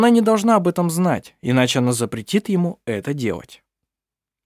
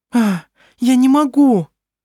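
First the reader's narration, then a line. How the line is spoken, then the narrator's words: Frightened. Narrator (Russian): испуганно произнесла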